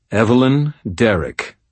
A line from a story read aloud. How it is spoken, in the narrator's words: I said in a firm, authoritative voice